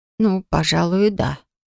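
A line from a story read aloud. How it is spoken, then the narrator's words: Quiet. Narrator (Russian): тихо произнесла Флора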